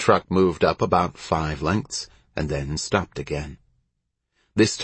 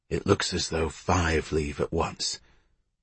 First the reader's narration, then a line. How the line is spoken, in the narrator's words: He whispered